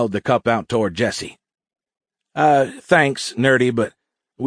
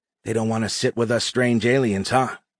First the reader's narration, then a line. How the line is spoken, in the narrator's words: Dave whispered